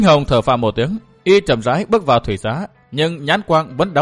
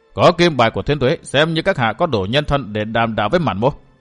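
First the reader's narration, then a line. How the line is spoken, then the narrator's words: Stern voice. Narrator (Vietnamese): Mạn Kinh Hồng nghiêm giọng nói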